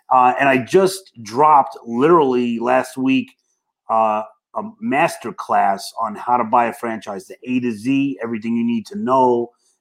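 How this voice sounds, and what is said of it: Brooklyn accent. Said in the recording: “I meant Brooklyn accent”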